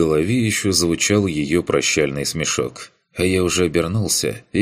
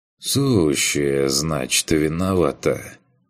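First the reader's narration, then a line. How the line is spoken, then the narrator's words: Sighing. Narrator (Russian): Вздохнул я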